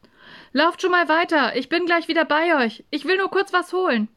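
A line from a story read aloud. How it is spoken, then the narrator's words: Calling out. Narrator (German): rief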